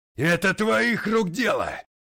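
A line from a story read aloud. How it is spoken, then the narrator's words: Yelling. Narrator (Russian): орал девятипалый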